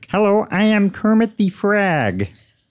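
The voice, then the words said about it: Kermit the Frog character voice. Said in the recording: “can you do Kermit the Frog? very famous character, Kermit the Frog. ... That was really good. ... That's very good.”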